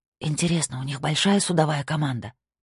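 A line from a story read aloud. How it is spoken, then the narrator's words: Whisper. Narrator (Russian): прошептала Сабина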